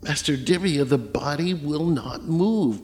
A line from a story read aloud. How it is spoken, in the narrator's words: Paulinus gasped, his eyes wide with terror